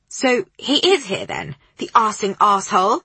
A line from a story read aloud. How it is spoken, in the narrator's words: the woman spat